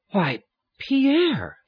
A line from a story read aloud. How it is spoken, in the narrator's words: he exclaimed, putting his mouth to the keyhole